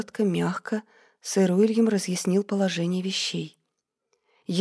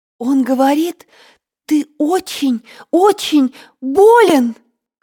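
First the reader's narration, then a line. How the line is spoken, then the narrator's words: Shout. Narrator (Russian): крикнула Реция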